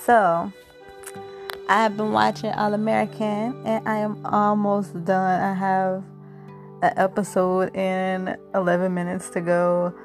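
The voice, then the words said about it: Voice sounds sick. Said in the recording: “I have been sick ... I know you can hear it in my voice.”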